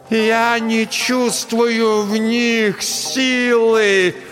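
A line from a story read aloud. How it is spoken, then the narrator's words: Shouting again. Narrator (Russian): Настя снова закричала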